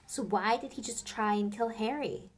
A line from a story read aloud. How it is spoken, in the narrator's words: cried Hermione